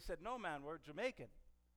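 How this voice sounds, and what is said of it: Bad put-on Jamaican accent. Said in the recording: “That was a really bad accent.”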